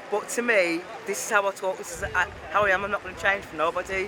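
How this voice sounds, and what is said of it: Black Country accent. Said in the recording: “speaking with a Black Country accent, which is slightly different to the Brummie accent”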